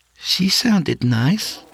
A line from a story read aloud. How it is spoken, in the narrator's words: she added nervously